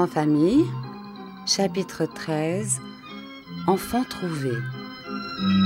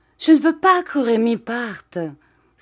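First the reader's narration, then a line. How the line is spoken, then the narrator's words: Exclaiming. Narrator (French): s'écria-t-il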